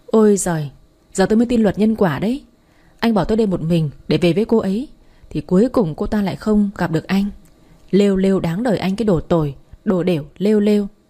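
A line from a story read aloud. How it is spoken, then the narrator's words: Laughing. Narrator (Vietnamese): Tôi bật cười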